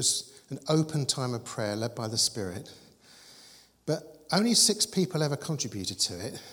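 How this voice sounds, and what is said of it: Usual voice. Nothing is said of it.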